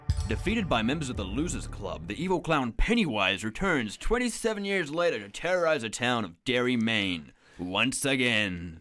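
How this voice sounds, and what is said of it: Dramatic presenter voice. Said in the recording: “started in a presenter voice”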